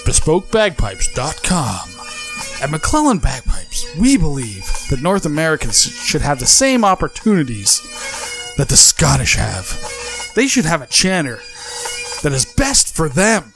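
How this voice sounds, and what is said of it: Announcer-style radio voice. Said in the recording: “do a good radio voice”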